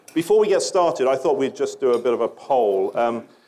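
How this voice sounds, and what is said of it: Non-American accent. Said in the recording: “you can tell by my accent I'm not a native Chicagoan. I feel more like the head of the Geico ad.”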